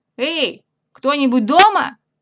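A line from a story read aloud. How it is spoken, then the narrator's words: Loud repeated call. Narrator (Russian): Повторил Пух громко-громко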